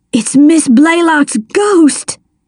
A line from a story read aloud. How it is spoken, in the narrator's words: he cried